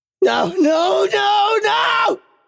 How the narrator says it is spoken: I said, screaming the words

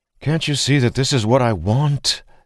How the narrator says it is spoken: Dalen sighed

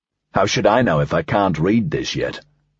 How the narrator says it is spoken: Dreyfus snapped

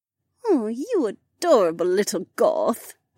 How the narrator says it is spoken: Becca sighed

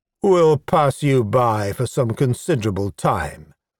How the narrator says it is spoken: continued smoothly

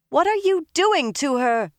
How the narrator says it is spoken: Min shouted

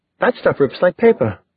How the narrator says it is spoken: She exclaimed

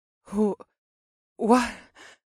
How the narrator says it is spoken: stammered in a soft, richly accented voice

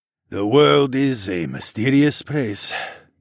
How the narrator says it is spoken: Quan sighed

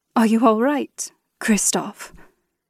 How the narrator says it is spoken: breathed, panic coloring my voice

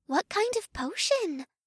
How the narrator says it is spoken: Una whispered so low only May and I could hear her

